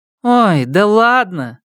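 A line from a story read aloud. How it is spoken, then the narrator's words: Indulgent purring voice. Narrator (Russian): молвила она благосклонно, снисходя к детским шалостям, но не удержалась-таки, промурлыкала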